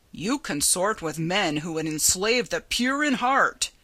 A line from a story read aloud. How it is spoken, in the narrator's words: he rumbled